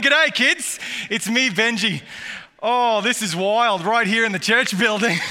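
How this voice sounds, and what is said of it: Australian accent. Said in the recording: “all the way from Australia ... usually it stays right from down under”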